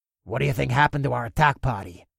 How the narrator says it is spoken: one of the orcs growled

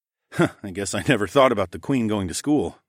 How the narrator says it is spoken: I chuckled

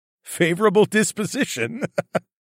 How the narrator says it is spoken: laughed

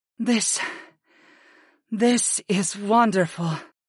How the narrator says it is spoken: Sarah breathed

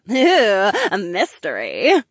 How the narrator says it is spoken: Marina giggled

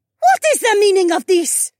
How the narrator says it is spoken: shrieked

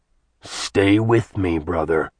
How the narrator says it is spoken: Sin said, his voice eerily calm

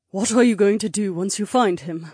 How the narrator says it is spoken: Helmy asked in a worried tone

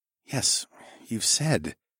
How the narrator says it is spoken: I murmured calmly

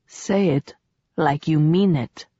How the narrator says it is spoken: Julian said quietly

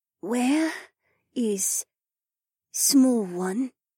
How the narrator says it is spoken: Her speaking voice had a smoky little rasp to it, and the way she accented her words sounded vaguely South African

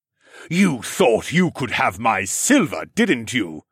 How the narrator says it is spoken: Siskorn bellowed to the sky

